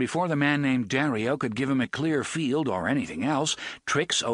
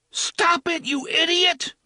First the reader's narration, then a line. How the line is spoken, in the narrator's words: Balazar screamed